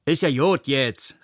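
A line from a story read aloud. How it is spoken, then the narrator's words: Called out. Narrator (German): rief eine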